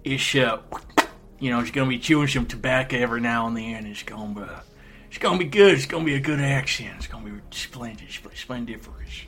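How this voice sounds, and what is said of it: Put-on country accent. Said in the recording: “expect some country accents in there ... what's his accent? Would you mind doing it for us?”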